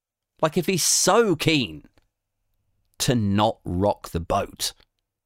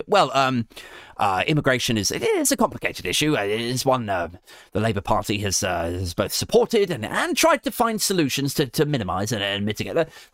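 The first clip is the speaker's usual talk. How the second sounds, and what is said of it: Poor imitation of another person's voice. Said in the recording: “terrible Starmer impression”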